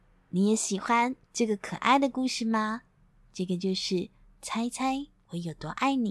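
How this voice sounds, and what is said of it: Usual voice. Nothing is said of it.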